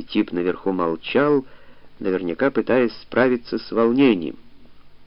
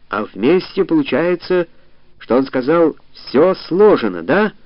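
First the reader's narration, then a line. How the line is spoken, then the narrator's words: Excited yelling. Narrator (Russian): заорал он возбужденно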